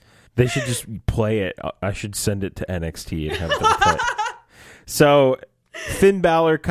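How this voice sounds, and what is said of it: Usual voice. Nothing is said of it.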